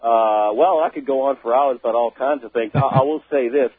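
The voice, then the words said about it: New Orleans Louisiana accent. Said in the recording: “I'm originally from New Orleans, Louisiana. I was born there. ... Oh, you still got the accent.”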